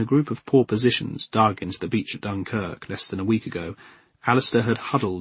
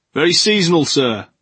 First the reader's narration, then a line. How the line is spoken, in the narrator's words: the man shouted from the next dugout